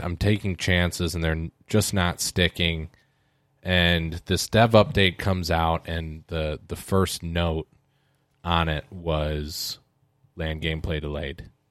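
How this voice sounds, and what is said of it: Tired, worn-down tone. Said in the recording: “you guys can tell by my tone. I'm feeling a little bit worn down”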